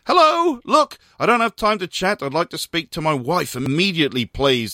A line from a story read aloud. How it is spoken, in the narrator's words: the manager spat down the line